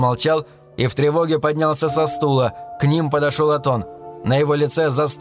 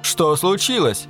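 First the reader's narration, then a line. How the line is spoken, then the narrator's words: Nearly shouted. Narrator (Russian): почти крикнул Ширин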